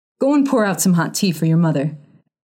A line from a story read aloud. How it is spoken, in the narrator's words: he ordered the boy sharply